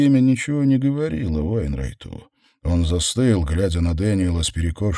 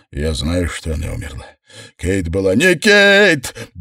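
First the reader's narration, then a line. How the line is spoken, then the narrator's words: Full-force yell. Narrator (Russian): завопил на Уэйнрайта, что есть мочи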